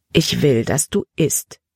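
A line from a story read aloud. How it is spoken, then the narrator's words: Plain. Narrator (German): sagte Frau Trowbridge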